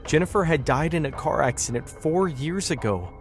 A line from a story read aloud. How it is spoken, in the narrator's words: she said, her voice breaking with sorrow